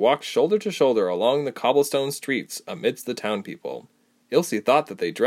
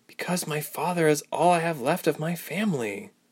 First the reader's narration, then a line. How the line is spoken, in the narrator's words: Ilse sighed